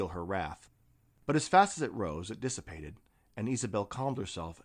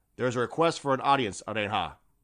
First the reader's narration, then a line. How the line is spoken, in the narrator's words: said stiffly